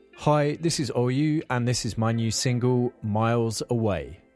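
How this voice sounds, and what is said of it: British accent. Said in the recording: “I kind of miss hearing his British accents. ... someone to do voiceover work with a British accent, he is your man.”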